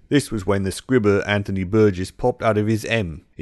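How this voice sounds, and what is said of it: Put-on Clockwork Orange style accent. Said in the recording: “apologize in advance for the accent I'm about to subject you to”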